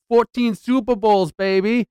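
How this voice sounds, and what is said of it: Failed attempt at Chicago accent. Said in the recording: “I can't do my Chicago accent today, apparently.”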